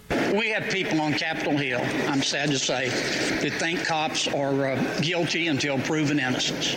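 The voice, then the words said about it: Strong Southern US accent. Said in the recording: “I love a good Southern accent, but Kennedy, man, his is great.”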